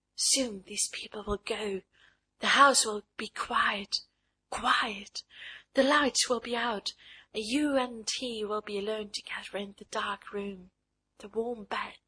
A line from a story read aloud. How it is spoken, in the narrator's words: this something blind and smiling whispered to her